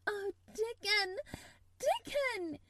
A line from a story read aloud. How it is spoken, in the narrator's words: she cried out